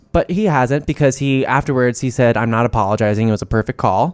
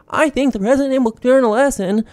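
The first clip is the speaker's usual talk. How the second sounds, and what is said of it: Shaky, wavering, up-and-down voice impression. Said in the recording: “that was my Susan Collins impression ... It's like kind of shaky, but like she kind of like weavers in and out. It's kind of like flowy up and down.”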